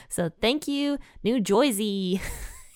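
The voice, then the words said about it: Put-on New Jersey accent. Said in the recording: “That's my best interpretation of the New Jersey accent.”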